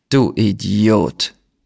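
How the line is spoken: Plain. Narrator (German): sagte er

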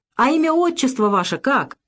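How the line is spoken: Sudden simple cheerful laugh. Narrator (Russian): засмеялась вдруг, просто и весело

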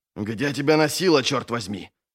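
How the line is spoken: Angry outburst. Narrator (Russian): сердито накинулся на него офицер

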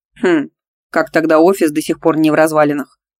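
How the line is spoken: Snorting. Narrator (Russian): хмыкнул Дмитрий

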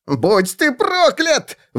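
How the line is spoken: Howled. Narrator (Russian): взвыл тот

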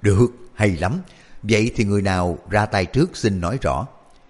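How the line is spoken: Laughing loudly. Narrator (Vietnamese): Đoàn Hoàng Gia cười lớn nói

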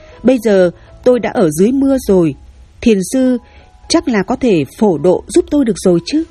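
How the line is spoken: Loud laughing. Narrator (Vietnamese): Nam thanh niên cười lớn

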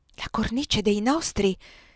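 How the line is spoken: Exclaiming. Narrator (Italian): esclamò Zazà

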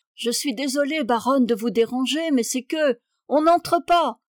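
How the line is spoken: Shouted from all sides. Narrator (French): cria de toutes parts

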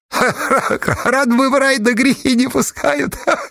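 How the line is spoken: Giggling. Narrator (Russian): хихикнул Агафон

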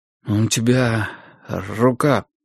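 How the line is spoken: Strained, forced out. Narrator (Russian): выдавил

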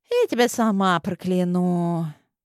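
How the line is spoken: Lazy reply. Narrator (Russian): Лениво ответила Улисса

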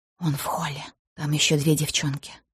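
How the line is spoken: Whisper. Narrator (Russian): шепнула она

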